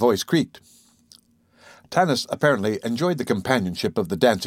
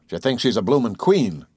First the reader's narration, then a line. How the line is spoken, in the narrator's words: growled Babbitt